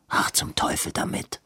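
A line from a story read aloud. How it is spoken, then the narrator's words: Clear and quiet. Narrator (German): sagte Edwin deutlich und leise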